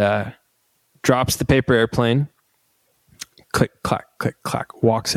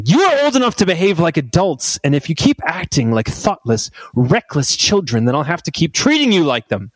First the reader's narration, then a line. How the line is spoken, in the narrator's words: snaps, saying